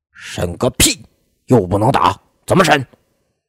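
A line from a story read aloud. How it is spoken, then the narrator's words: Furious. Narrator (Chinese): 李鸿成大怒说道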